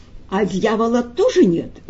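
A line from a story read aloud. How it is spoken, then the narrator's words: Sudden cheerful question. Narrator (Russian): вдруг весело осведомился больной у Ивана Николаевича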